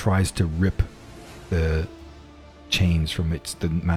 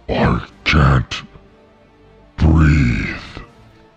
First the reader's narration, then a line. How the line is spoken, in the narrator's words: the creature grabs at the thing around its neck, and you can hear reverberations from it, and it grumbles out